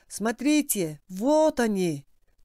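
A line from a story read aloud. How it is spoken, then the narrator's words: Young man shouting. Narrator (Russian): молодой закричал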